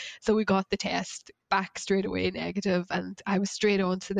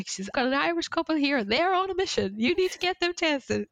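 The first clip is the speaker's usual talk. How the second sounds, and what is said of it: Poorly imitated local woman's accent. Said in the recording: “Sorry for my accent there, it's probably terrible”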